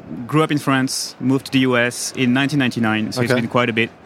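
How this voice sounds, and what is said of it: French accent. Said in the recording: “the broken accent ... The French accent is here to stay”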